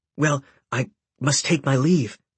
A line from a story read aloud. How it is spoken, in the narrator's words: he stammered